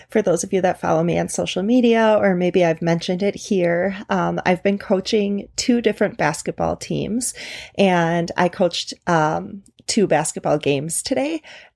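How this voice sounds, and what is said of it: Slightly scratchy voice. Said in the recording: “my voice may sound a little scratchy today ... coaches have to yell and raise their voice ... please forgive any little scratches in my voice”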